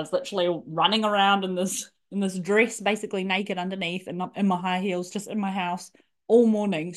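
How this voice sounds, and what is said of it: Excited, happy, babbling voice. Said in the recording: “you can probably tell from my voice, my babbling on, I just feel like $1 million”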